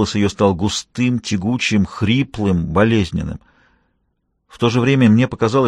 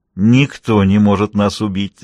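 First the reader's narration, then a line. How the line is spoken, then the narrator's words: Laughing. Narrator (Russian): засмеялась Агустина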